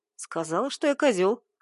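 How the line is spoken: Snorting. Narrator (Russian): хмыкнул я

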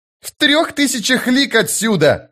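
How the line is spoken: Shout. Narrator (Russian): закричал Крокус

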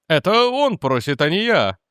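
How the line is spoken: Exclaimed. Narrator (Russian): воскликнул мистер Гуд

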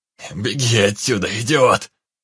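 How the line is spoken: Hoarse shout. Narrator (Russian): хрипло крикнул незнакомец

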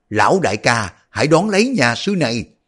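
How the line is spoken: Old man shouting. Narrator (Vietnamese): Lão la lên

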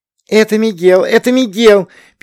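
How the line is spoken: Excited squeaking. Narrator (Russian): пищала Натали

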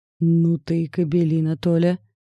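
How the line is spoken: Growling woman. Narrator (Russian): прорычала незнакомка

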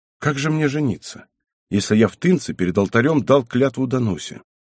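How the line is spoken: Calm reply. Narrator (Russian): Збышка спокойно ответил

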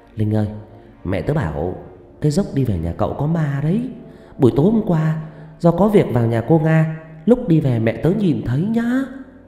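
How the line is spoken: Whispered in the ear. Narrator (Vietnamese): con Huyền béo ghé tai Linh thì thào

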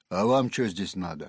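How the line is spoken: Roaring coarse bass. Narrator (Russian): Она взревела солдафонским басом

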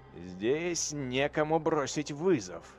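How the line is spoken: Grumbling. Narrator (Russian): проворчал Алев Катрагани, один из товарищей Вациферона

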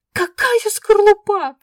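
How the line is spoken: Shrieking. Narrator (Russian): взвизгнула я

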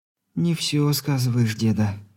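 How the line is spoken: Confident whisper. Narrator (Russian): уверенно прошептала она

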